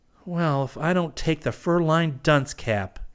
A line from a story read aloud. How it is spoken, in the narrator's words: he moaned